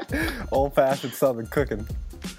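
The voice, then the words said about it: Oklahoma Southern accent. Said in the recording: “I'm loving the Oklahoma accent right now.”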